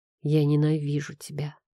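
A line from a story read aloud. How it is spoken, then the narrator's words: Reluctant grumble. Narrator (Russian): проворчал я, не желая пить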